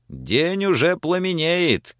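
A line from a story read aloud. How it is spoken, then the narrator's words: Shouted. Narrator (Russian): крикнул чей-то голос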